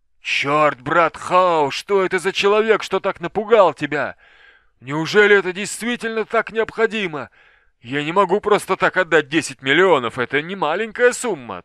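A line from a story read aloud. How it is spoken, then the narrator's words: Indignant shouting. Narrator (Russian): Толстый Ченг кричал в негодовании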